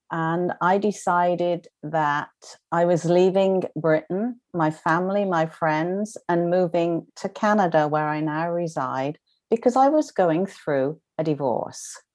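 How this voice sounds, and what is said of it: British accent. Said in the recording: “I am a British trained nurse, as you can, obviously the accent gives me away”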